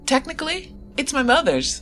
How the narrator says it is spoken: she laughed

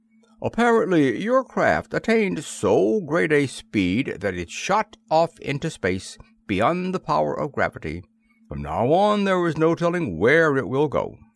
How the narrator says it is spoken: The Lord High Mayor explained pompously

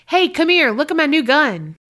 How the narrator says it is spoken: yelled to my friend's dad

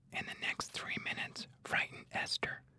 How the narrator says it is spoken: Catherine whispered to Miles

